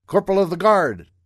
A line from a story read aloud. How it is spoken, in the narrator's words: He called out